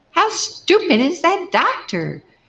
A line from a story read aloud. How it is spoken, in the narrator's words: she shrieked